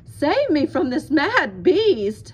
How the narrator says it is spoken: bellowed the terrified farmer

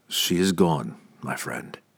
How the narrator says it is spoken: Drizzt said softly

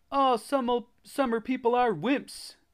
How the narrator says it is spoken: Jimmy Stern exclaimed

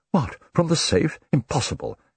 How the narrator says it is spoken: Edward Raynor exclaimed

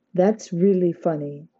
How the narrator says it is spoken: she said, trying to keep her voice steady

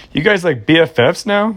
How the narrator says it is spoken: Brianna asked him with a short giggle

